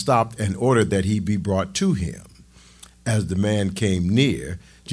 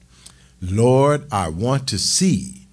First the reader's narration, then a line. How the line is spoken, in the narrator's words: the man replied